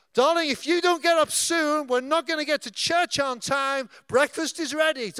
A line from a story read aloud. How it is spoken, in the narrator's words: Third time, she shouts up